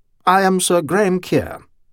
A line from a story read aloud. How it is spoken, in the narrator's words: he said